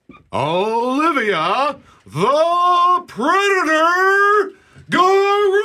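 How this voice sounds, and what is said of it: Boxing ring announcer voice. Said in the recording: “in your best ring announcer voice”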